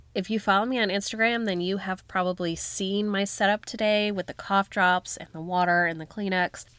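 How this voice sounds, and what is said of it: Hoarse, deep, croaky sick voice. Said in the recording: “you can hear it in my voice. I sound like a frog. Deep voice here. I have COVID.”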